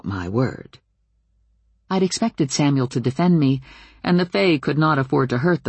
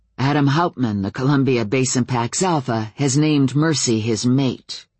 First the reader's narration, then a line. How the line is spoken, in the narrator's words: continued Samuel grimly